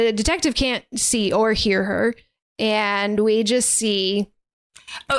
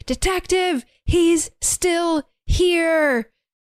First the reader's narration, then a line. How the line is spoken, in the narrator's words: She is yelling, and saying